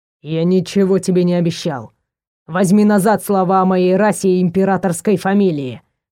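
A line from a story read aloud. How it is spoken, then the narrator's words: Growling. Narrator (Russian): зарычал Лейдере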